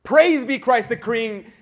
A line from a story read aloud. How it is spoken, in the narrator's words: Maria de la Luz, the Red Leader, furious that they should be thwarted by a mere girl, shouted